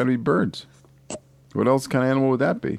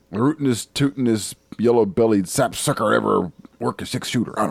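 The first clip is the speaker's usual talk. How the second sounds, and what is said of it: Yosemite Sam voice. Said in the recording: “You have to say that with a Yosemite Sam accent.”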